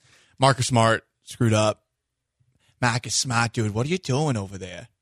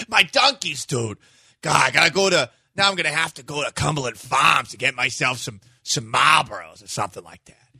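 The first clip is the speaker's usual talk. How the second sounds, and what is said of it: Exaggerated Boston accent. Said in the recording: “good Boston accent”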